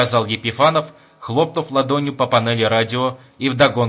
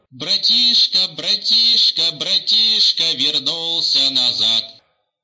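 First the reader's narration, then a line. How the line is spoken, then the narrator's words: Rasping radio. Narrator (Russian): продолжало хрипеть радио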